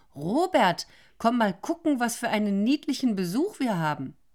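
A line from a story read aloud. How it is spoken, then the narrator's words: Woman calling out. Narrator (German): Die blonde Frau rief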